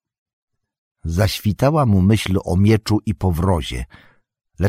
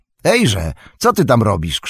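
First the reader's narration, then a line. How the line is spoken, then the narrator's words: Suspicious shout. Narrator (Polish): krzyknął Sam, bo na ten widok nieufność ocknęła się znowu w jego sercu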